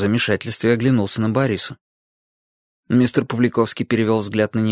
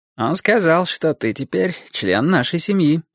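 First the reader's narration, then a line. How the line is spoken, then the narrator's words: Bored tone. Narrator (Russian): скучающим тоном сказал Борис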